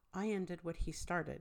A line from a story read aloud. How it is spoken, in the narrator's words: he says evenly